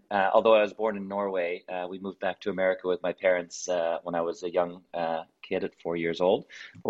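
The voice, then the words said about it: American accent. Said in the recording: “as you can tell from my accent, I am American”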